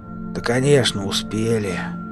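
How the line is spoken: Hoarse voice. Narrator (Russian): хрипло произнес Пашка Клим

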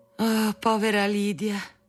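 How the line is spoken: Mother sighing. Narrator (Italian): sospirava di tanto in tanto mia madre

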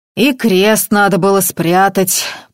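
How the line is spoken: Deep bass, big man. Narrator (Russian): пробасил здоровяк

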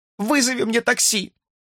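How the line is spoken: Sobbing woman. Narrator (Russian): прорыдала она

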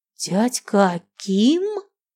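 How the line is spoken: Hoarse wheeze. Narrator (Russian): просипел

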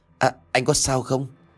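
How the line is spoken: Trembling stammer. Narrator (Vietnamese): thằng nhãi này run rẩy ngay lại, miệng lắp bắp

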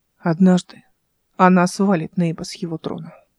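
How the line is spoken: Gloomy tone. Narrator (Russian): мрачным тоном сказал Зента

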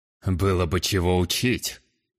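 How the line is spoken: Scoffing snort. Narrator (Russian): фыркнул южанин

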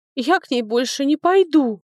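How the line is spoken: Sobbing. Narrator (Russian): всхлипнула вторая девушка

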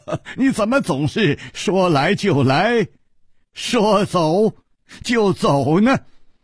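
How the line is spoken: Wry, bitter smile. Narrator (Chinese): 楚留香苦笑着说

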